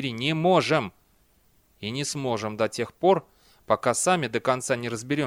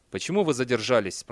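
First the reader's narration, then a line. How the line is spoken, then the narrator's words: Plain. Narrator (Russian): спросил он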